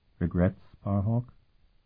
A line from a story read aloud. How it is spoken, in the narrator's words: Sophrenia asked him gently